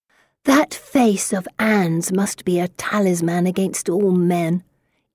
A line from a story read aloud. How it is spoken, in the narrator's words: Elizabeth whispers just loud enough to be heard